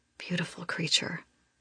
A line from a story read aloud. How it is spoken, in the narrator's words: he murmurs